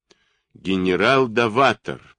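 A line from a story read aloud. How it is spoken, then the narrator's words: Through gritted teeth. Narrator (Russian): процедил он сквозь зубы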